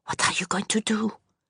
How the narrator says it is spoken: Allée whispered

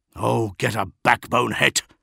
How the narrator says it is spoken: snapped Omegon

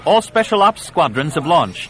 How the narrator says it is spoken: Yella called out above the clamor of the command chamber

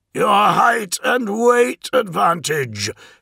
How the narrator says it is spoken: bellowed

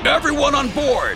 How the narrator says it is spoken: Archer yelled

